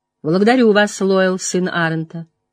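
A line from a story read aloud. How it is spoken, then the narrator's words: Dry reply. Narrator (Russian): сухо отвечала Морейн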